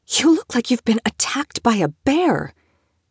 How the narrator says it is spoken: she whispered

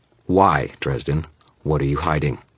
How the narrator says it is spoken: Murphy said, her voice hard, professional

